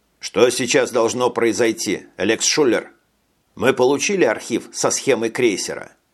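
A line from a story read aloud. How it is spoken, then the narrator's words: Forced calm question. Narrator (Russian): спросил Брейн, стараясь говорить спокойно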